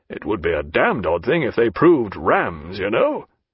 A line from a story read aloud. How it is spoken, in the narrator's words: And to himself, chuckling much, he added